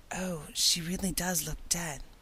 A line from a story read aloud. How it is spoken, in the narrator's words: whispered Ruby Gillis nervously